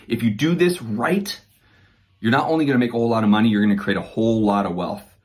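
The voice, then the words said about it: Excited, fired-up tone. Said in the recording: “So pretty fired up about this. Obviously, you could hear it in my tone”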